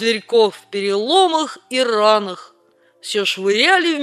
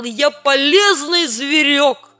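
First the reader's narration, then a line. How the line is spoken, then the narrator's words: Crying and shouting. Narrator (Russian): мангуст плакал, и кричал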